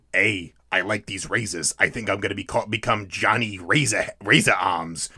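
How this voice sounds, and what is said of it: Imitates another person's voice. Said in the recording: “best Johnny Depp impression ... BoJack Horseman does Sweeney Todd”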